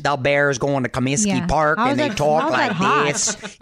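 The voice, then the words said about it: Put-on Chicago accent. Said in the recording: “Can you do a Chicago accent? ... Chicago's kind of like this ... That is an ugly accent.”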